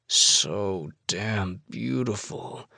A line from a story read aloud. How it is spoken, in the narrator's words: I groan